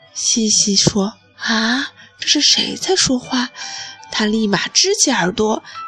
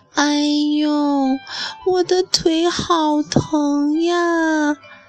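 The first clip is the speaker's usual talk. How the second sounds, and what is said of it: Small, frail, tearful voice. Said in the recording (Chinese): “又小又纤弱，然后还带着哭腔的声音说”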